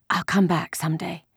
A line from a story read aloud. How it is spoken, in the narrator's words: Ellen whispered fiercely